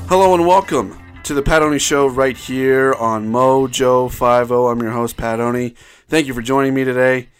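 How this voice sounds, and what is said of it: Deeper, congested voice. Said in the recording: “I have a cold, so if I sound a little bit more manly than usual, maybe a little congested... my voice does seem to be a bit deeper than it usually is”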